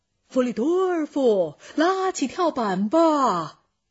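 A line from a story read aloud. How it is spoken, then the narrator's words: Shouting. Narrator (Chinese): 长袜子船长喊着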